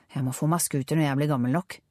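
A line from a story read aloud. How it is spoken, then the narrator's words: Mumbled. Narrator (Norwegian): mumlet Karen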